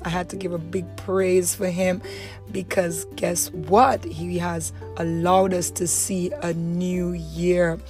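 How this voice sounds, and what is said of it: Rusty, hoarse voice. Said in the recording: “my voice is a bit rusty because, you know, I had to give a big shout”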